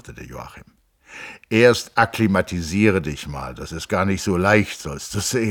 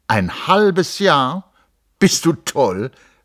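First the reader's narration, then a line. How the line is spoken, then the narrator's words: Calling out. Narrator (German): rief Hans Castorp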